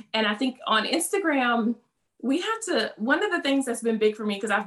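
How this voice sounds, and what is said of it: Southern American accent. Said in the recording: “they hear from my accent, you're just this, you know, Southern Belle”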